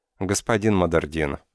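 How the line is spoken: Calm now. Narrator (Russian): сказала она уже спокойно

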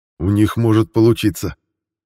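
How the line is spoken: Angry. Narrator (Russian): зло блеснул глазами Грен

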